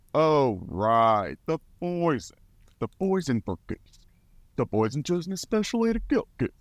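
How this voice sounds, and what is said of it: Imitates a cartoon character's voice. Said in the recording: “I do a mean Kronk impression ... I can impersonate him, and I will impersonate him”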